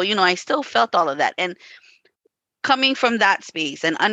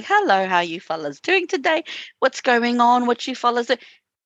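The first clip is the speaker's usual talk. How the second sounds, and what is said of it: Imitated Maori-English accented voice. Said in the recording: “my mother had a Maori accent. She had an English accent. ... your mom has an accent.”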